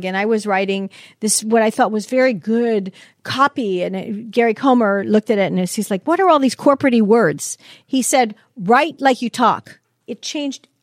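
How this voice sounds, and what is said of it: Chicago accent. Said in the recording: “I'm a Catholic Italian girl from Chicago. You can hear it in my voice.”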